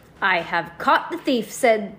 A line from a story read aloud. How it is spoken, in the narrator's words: Bruce exclaimed